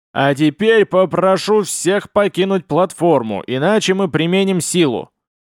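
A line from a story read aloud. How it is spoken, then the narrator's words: Even louder voice. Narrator (Russian): еще более громким голосом продолжил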